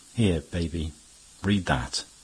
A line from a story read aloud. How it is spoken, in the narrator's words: said, very calmly